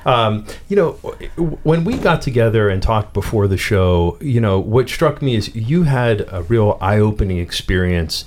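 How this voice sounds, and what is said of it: Pittsburgh accent. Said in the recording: “in my Pittsburgh accent”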